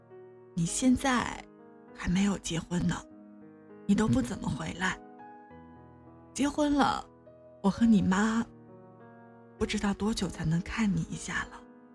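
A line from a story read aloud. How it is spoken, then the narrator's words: Halting, choked up. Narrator (Chinese): 他断了一下，几乎是哽咽地说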